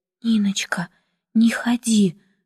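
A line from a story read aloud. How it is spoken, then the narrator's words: Soft female whisper. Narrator (Russian): шепнула она тихо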